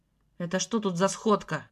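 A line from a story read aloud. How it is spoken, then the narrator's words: Rough question. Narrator (Russian): Грубо спросил Алексей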